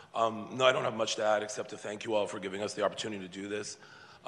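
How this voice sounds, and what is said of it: Strained, fading voice. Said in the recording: “losing my voice.”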